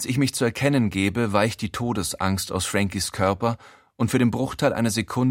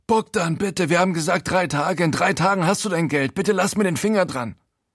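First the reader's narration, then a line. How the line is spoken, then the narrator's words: Called out. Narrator (German): ruft er zuerst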